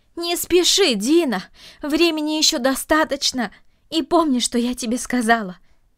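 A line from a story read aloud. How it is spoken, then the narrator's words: Calling after. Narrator (Russian): крикнула она ему вслед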